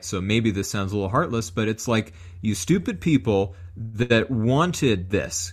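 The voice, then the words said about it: Northern US Yankee accent. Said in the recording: “I have a Yankee accent”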